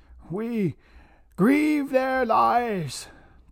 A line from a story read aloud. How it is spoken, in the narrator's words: Tomten choked on emotion